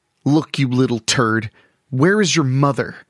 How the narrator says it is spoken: Amber asked angrily

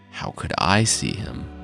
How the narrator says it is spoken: the hunter asked

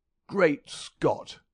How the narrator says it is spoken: cried the athlete

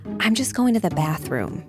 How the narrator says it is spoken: she whispers

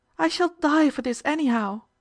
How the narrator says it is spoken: whined Miss Spencer

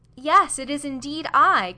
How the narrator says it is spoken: cried the young man

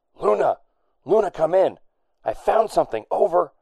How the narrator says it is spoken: whispered Danton on his wrist OS

